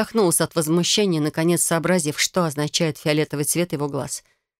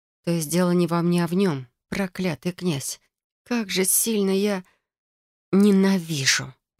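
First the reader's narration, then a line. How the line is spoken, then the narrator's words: Desperate exhausted hiss. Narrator (Russian): Прошипела с отчаянием, понимая, что сил больше не осталось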